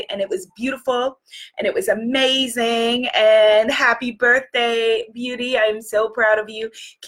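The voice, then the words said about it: Hoarse, partly lost voice. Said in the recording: “as you can hear my voice, I've lost my voice a little bit”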